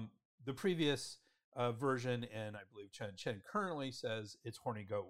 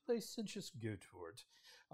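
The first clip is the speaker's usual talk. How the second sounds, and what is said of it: Put-on British accent. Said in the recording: “I can just hear a British accent.”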